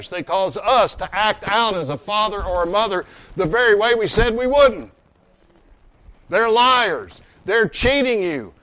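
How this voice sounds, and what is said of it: Angry, forceful preaching voice. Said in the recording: “I sound angry.”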